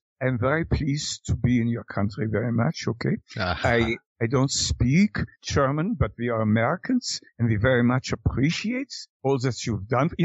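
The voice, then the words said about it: English with put-on German accent. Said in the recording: “speak English at least with a pseudo German accent”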